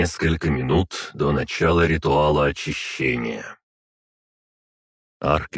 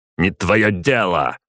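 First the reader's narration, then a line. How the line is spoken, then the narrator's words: Barked. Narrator (Russian): рявкнул Ермолов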